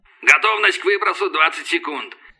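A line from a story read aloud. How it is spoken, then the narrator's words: Barked over headset. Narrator (Russian): рявкнул в гарнитуре голос падальщика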